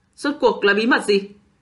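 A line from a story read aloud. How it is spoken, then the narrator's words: Loud shout, cave echo. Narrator (Vietnamese): Thủy sứ cao giọng quát, âm thanh tương tự với tiếng lòng của Kim Kiền vang lên trong hang động trống trải, làm khua dậy một trận hồi âm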